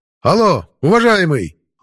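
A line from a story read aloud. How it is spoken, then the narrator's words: Yelling. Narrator (Russian): заорал я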